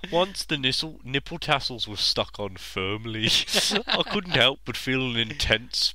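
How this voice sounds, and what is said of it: Put-on Brummie accent. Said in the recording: “reading Fifty Shades of Grey in a Brummie accent”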